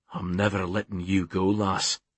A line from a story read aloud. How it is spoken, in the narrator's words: His voice was husky when he said